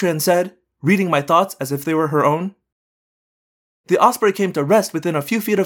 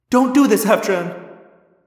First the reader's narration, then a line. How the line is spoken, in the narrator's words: I cried